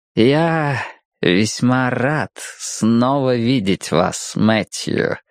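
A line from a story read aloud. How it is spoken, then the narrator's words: Silky voice. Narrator (Russian): шелковым голосом начал Фелл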